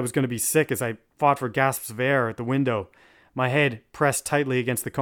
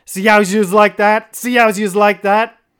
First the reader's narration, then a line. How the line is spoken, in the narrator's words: B was literally screaming